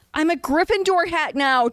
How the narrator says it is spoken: Draco yelled boldly with the inspiring zeal that so many newcomers in the faith have

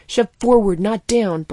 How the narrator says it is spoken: Blank snapped

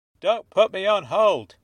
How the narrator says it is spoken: he barked

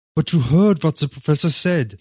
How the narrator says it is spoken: he moaned

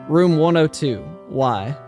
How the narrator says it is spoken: sighed a breath of relief

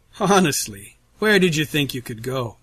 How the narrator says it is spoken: Russell asks, his tone jovial, yet somehow still dripping with menace

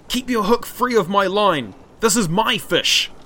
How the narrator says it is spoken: Māui shouted

